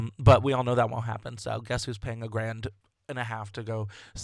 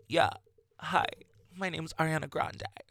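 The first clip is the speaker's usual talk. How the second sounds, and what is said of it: Poor imitation of another person's voice. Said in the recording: “That was the worst impersonation I ever did, ever.”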